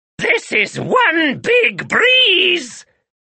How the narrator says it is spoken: shouted the witch

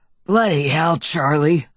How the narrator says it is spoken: Uncle Bob said in a wheezy voice that sounded more concerned than angry

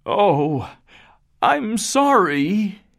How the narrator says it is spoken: he cried

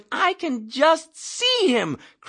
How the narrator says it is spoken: cried the chaplain

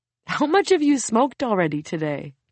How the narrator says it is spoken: Kevin chuckles

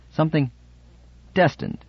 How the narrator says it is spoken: he said sharply

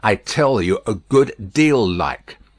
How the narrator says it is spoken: Madame sternly retorted

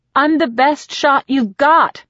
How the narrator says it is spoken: I shout

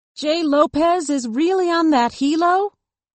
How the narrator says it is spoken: Eden had to shout above the rapid-fire sound of the blades

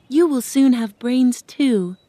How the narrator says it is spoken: Dorothy said kindly

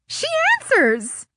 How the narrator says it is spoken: Kelly hooted in a shriek in my ear

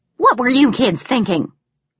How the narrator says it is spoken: she exclaimed

